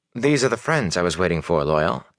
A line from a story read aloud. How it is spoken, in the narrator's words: he said